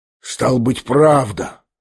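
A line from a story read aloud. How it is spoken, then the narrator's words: Quiet, to himself, lost. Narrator (Russian): проговорил он тихо и как бы про себя с совершенно потерянным видом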